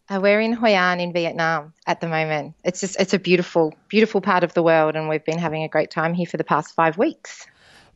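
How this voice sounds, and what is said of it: Australian accent. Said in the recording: “that accent sounds a little bit Australian to me... Very much Australian.”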